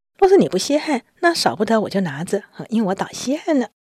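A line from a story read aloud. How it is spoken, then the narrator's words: Laughing. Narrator (Chinese): 宝玉就笑了说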